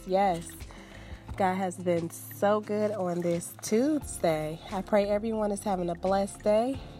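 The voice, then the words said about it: Raspy, fading sore-throat voice. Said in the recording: “I've had a sore throat... you may hear me get a little raspy and lose my voice”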